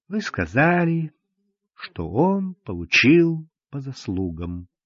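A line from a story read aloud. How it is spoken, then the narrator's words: Soft, gentle. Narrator (Russian): мягко сказала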